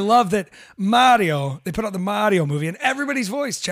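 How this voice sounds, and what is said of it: Usual voice. Nothing is said of it.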